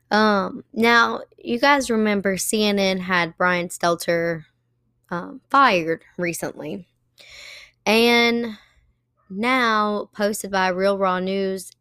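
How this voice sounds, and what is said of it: Hoarse, cracking voice. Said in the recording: “I'm a little hoarse today, so just kind of excuse me if my voice is cracking here and there”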